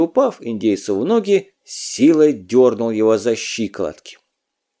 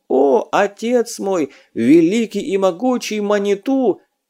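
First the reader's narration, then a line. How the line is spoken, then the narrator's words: Exclaimed. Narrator (Russian): он воскликнул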